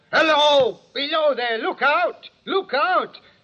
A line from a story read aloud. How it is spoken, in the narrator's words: The voice was hoarse with shouting and it cried